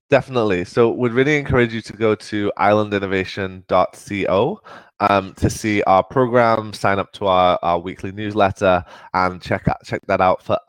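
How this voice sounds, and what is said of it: Mixed English and Southern US accent. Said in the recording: “West Midlands, north of England, borders accent meets the deep south of the US, and got a bit messed up ... it's a bit temperamental, my accent.”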